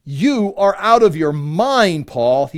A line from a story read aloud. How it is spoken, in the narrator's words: he shouted